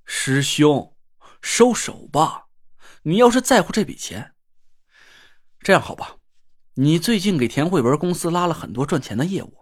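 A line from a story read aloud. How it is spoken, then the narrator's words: Sighing, persuading. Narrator (Chinese): 我叹了口气，又劝了那若兰几句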